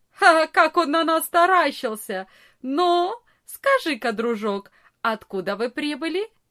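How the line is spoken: Loud laughing speech. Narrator (Russian): самый большой из ребят громко не засмеялся и не сказал

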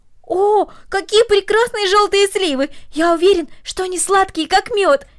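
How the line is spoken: Exclaiming. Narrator (Russian): воскликнул Дино

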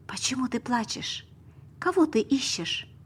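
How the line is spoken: Soft. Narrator (Russian): Тот, кто к ней подошел, сказал мягко

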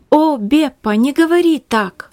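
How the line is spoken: Tearful exclamation. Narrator (Russian): воскликнула Магдалина, заливаясь слезами

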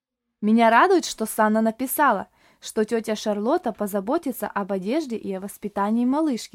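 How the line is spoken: Plain. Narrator (Russian): сказала она

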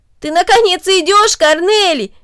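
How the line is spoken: Exclaiming. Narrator (Russian): воскликнул Дино

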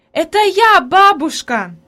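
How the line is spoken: Joyful shout. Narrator (Russian): закричала обрадованно Хайди

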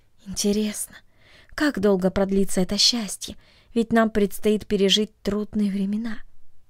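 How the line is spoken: Secret sighing self-question. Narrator (Russian): она тайно вздохнула и спросила себя

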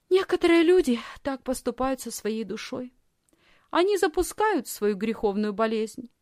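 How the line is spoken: Thoughtful reply. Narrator (Russian): Лисхин задумчиво ответила

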